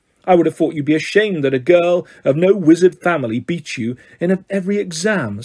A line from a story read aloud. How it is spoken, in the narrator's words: snapped Mr